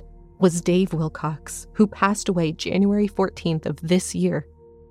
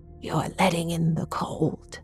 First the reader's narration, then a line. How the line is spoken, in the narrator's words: she growled